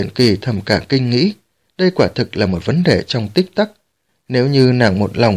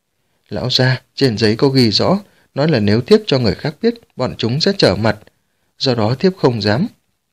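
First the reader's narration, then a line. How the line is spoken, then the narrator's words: Frightened speech. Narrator (Vietnamese): Thùy Huyền Kỳ ôm con trai sợ hãi nói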